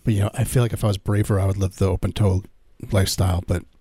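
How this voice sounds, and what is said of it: Hoarse, scratchy voice. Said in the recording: “I'm losing my voice. ... I feel like I'm a little scratchy.”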